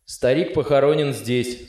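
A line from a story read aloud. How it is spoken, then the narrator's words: Plain. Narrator (Russian): сказал солдат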